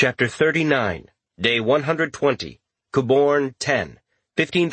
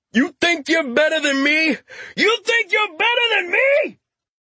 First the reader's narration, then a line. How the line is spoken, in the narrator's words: shouting